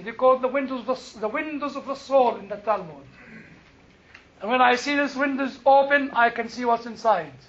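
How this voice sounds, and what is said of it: Strong foreign accent. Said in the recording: “my horrible accent”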